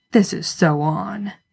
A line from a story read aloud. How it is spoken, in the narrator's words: He hears Dean grumble